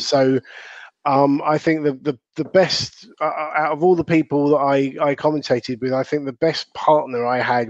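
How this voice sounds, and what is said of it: Southern English accent. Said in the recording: “my Southern English accent”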